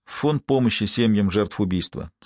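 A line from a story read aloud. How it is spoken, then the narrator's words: Plain. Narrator (Russian): сказал я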